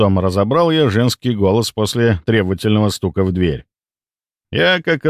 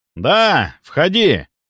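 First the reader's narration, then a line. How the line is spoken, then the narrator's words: Shouted reply. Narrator (Russian): прокричал я в ответ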